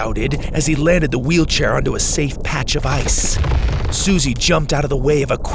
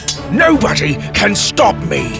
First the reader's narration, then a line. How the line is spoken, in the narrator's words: Drake bellowed